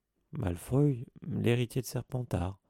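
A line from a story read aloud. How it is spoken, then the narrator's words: Skeptical murmur. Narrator (French): murmura Hermione d'un ton sceptique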